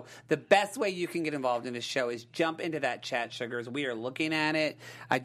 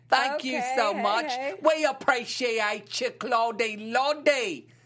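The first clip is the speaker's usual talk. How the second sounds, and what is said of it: Bad put-on English accent. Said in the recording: “my best version of an English accent... That's a really bad English accent.”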